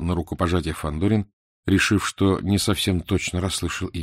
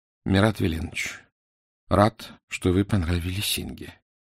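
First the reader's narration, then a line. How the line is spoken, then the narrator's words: Quiet. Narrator (Russian): тихо сказал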